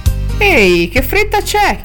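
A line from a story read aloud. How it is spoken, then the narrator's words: Whining question. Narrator (Italian): chiese Wall Street Boy con voce lamentosa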